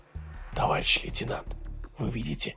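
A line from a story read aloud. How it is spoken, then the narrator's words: Sailor whispering. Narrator (Russian): прошептал матрос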